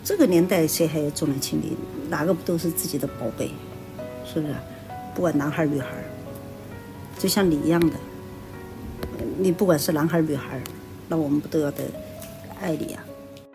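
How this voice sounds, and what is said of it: Sichuan-Chongqing regional accent. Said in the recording (Chinese): “我从这个口音听出来...川渝地区的人”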